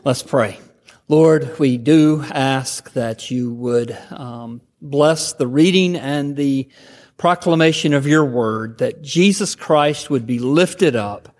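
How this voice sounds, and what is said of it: Southern Georgia drawl. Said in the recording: “my Georgia drawl”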